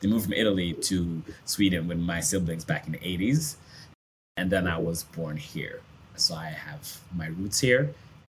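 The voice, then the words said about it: American-sounding English accent. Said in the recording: “why I have somewhat of an American accent ... many of you have an American accent, or to my ear, a very American accent. Like if I ran across you randomly somewhere in the States, I would initially think you were American. But then as you keep talking, it's like, okay, there's something else”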